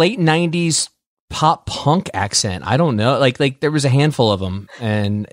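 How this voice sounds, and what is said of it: Usual voice. Nothing is said of it.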